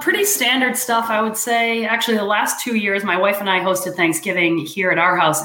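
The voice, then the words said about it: Hoarse, fading voice. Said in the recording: “I'm losing my voice a little bit”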